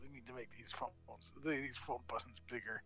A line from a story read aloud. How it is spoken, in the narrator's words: he mutters to himself